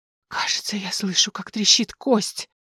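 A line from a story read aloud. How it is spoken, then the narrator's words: Tragic whisper. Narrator (Russian): трагически прошептать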